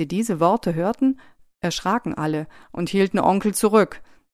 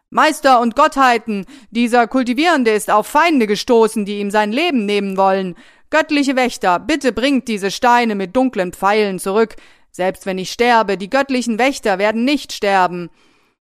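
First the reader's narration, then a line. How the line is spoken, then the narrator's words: Feigned angry screaming. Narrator (German): vor Wut und schrie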